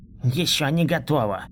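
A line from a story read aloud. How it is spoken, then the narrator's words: Mumbled, slurred. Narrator (Russian): Прошамкал непонятно смазанным голосом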